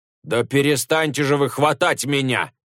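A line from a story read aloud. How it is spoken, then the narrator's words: Confused shouting. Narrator (Russian): кричал Джубадзе, не поняв, в чем дело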